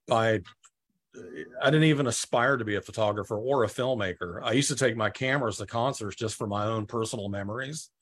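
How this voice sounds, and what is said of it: Georgia Southern US accent. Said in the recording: “I'm listening to your accent in them... originally from Georgia”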